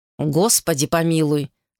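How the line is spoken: Plain. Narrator (Russian): сказал он

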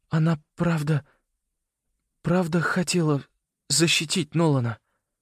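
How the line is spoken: Trembling question. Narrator (Russian): спросил он дрожащим голосом

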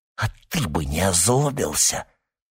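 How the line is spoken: Hiss. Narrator (Russian): прошипел он

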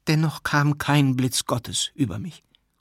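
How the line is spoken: Continued, plain. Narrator (German): fuhr Matwej fort

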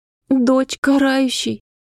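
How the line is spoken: Smiling through tears. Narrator (Russian): улыбалась Раина сквозь слезы

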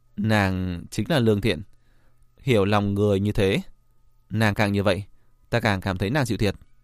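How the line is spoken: Smiling. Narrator (Vietnamese): Diệp Viễn mỉm cười, nói

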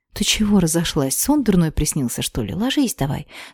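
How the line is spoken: Sleepy mumble. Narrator (Russian): Спросонья промямлила я

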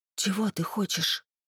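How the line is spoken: Soundless mouthed whisper. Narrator (Russian): одними губами прошептала Ольга

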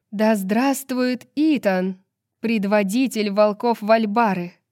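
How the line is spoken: Loud proclamation. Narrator (Russian): Громко, чтобы слышали все, провозгласила Амелия

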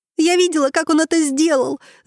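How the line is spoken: Shouting. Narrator (Russian): закричала поня

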